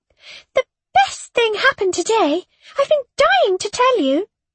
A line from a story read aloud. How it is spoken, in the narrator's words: Shona squealed